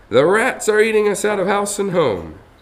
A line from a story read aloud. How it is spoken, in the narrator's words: cried an angry woman in the crowd